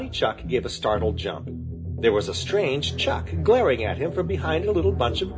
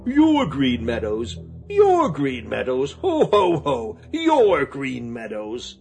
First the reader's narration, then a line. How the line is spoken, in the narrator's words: The stranger laughed an unpleasant laugh